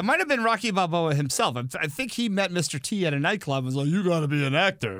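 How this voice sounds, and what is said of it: Poor Sylvester Stallone impression. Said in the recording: “It's a terrible impression. ... But most of mine are.”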